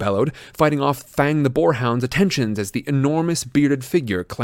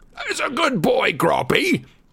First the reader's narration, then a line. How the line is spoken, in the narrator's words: he bellowed through the hole in the window